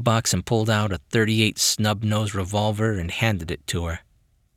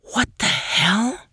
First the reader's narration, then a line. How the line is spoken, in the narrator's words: Maggie whispered